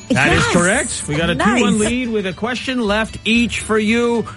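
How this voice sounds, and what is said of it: Put-on game show host voice. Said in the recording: “Do you have an accent? Have you developed an accent as the host? ... It's my game show host.”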